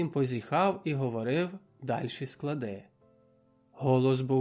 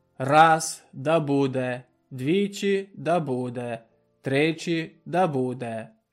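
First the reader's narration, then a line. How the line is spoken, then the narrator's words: Alternating whisper and loud. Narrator (Ukrainian): шептав потихо, то знов голосно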